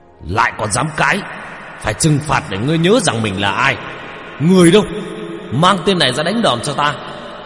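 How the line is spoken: Angry hiss. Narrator (Vietnamese): Ông quan lại đập bàn mà rít lên

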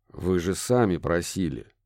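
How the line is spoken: Grumbling. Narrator (Russian): буркнул ирландский коллега

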